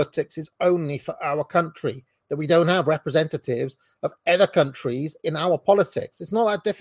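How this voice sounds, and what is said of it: Usual voice. Nothing is said of it.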